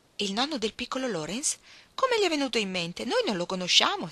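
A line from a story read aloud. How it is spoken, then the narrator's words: Exclaiming. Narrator (Italian): esclamò Meg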